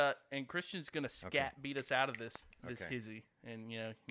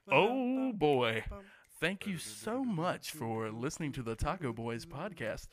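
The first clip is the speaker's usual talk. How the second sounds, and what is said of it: Radio announcer voice. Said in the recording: “here's my radio voice”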